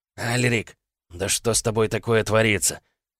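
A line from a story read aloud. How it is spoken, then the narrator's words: Desperate hoarse wheeze. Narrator (Russian): В отчаянии прохрипел тот, кто держал меня справа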